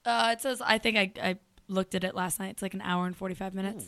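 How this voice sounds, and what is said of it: Hoarse voice. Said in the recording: “I've got a hoarse voice”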